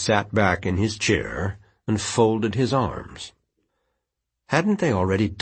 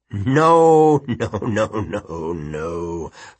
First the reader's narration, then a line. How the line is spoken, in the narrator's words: Fogg chuckled, not especially kindly